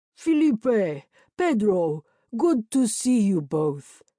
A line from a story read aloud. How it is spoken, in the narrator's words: boomed in pretty good Portuguese